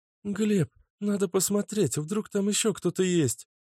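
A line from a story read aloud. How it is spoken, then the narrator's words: Timid babbling girl. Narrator (Russian): пролепетала девушка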